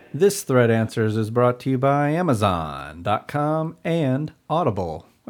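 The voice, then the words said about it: Announcer-style radio voice. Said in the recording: “I just like your radio voice.”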